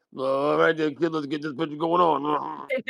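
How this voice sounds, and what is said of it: Imitates another person's voice. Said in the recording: “your impression of him.”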